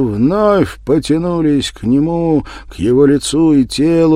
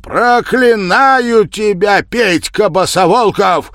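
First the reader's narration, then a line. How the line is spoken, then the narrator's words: Shouted curse. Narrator (Russian): выкрикнул он в лицо убийце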